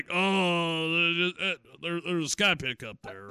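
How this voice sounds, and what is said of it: Imitates another person's voice. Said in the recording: “That's a good impression. ... you nailed the Alex Jones.”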